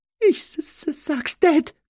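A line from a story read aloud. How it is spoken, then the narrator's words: Whimpering. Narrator (German): wimmerte Dudley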